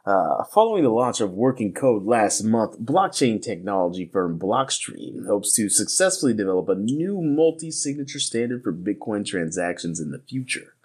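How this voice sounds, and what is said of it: Announcer-style radio voice. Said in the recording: “this is my radio voice”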